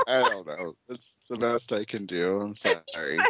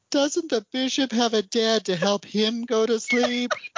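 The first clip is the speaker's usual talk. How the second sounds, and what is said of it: Imitates a little girl's voice. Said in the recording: “Your little girl voice”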